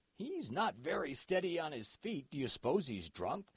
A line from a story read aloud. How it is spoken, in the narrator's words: said Clyde